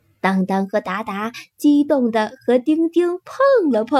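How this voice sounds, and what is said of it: Usual voice. Nothing is said of it.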